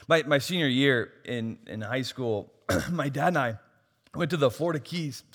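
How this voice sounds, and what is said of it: Hoarse, strained voice. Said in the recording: “I'm losing my voice. It's my third sermon in 24 hours, so I'm just losing my voice.”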